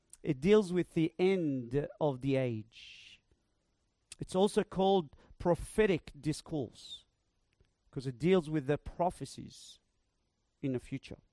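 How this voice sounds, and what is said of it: Speaks with a noticeable accent. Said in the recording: “Sorry about my accent.”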